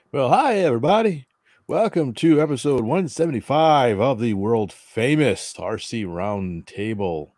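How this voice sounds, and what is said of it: Southern American accent. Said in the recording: “He hasn't lost his southern accent.”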